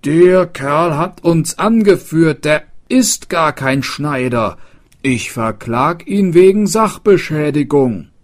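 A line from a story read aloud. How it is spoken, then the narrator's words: Called out. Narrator (German): rief der Schildbürger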